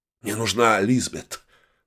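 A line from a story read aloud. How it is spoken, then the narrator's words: Breathless exhale. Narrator (Russian): выдохнул я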